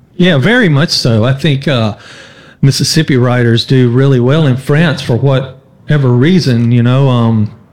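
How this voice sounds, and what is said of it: Southern American drawl. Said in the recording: “when people hear you talk, for example, and hear that drawl”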